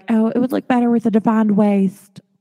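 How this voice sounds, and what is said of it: Brief put-on Southern accent. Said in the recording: “I don't know why I got an accent ... Welcome to the South.”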